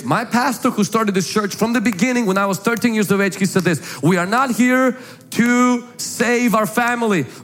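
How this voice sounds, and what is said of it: Foreign accent with harsh strong R's. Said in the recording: “I wasn't born in the United States. That's why you hear this little cute accent. Or scary, a little harsh, strong R's.”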